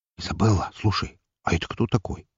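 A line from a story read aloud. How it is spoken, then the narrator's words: Quiet question. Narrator (Russian): тихо спросил я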